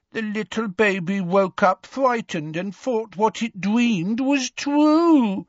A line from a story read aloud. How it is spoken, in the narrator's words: said the woman in a horrible mock baby voice